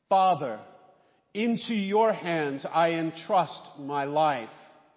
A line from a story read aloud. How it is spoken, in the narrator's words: Crying out in a loud voice, Jesus said